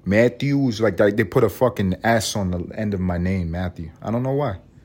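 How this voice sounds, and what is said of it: Usual voice. Nothing is said of it.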